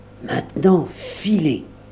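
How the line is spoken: Muffled whisper from underneath. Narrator (French): souffla Marco Valdo de dessous son sarcophage de sable

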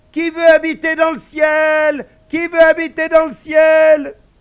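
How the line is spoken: Shouted at full strength. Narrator (French): elle cria de toutes ses forces

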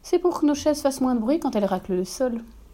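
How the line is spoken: Calm explanation. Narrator (French): Esteban explique calmement

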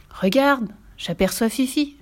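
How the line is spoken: Delighted female exclamation. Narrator (French): s'écria-t-elle ravie

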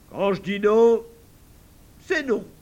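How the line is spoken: Said in an odd voice. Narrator (French): il a dit ça d'une voix tellement drôle

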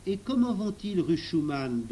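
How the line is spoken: Plain question. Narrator (French): demanda Émile

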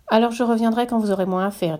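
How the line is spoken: Plain. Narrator (French): dit Tistou

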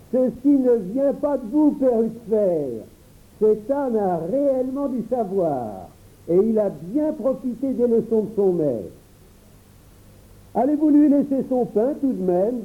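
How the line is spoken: Exclaimed. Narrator (French): Un ami s'écria

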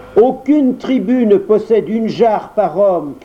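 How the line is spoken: Shouted in Siamese. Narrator (French): cria Perken en siamois

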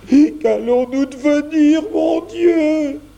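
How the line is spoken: Exclaiming, near tears. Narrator (French): s'écria Jeannot, prêt à pleurer

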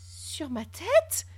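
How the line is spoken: Cried out. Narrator (French): s'écria Barthélemy

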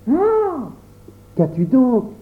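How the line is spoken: Exclaimed. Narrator (French): s'écria Pierre

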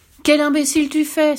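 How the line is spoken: Exclaimed. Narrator (French): s'écria-t-elle

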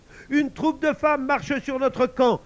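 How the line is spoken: Scattered shouting voices. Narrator (French): hurlait-on ça et là

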